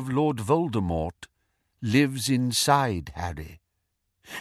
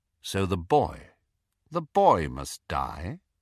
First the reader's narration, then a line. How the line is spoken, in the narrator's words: asked Snape quite calmly